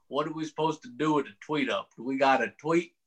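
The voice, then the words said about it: Imitates another person's voice. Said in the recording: “It's a good Ward Burton impersonation.”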